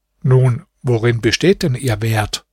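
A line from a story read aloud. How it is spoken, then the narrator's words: Plain. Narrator (German): fragte Hasan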